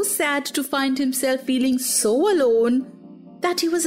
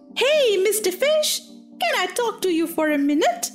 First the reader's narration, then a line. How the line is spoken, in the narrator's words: Pinocchio called out